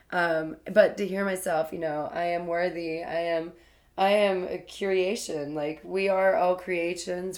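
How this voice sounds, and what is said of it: Raspy voice. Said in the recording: “I'm so raspy. I've been like this my whole life.”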